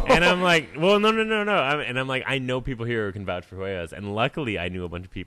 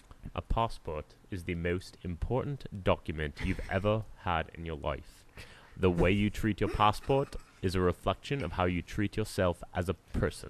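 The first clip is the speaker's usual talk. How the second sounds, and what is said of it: Staunch put-on British accent. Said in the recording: “in like the most like staunch British accent”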